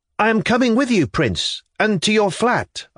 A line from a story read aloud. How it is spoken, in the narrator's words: I cried